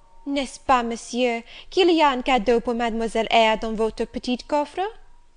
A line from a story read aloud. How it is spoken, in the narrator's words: Adèle, thinking the moment propitious for making a request in my favour, cried out